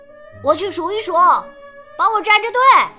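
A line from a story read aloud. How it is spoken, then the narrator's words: Shouting. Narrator (Chinese): 他对扎克喊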